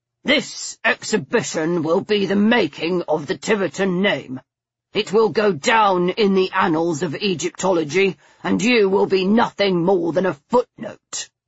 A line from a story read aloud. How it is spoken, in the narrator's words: he said, through clenched teeth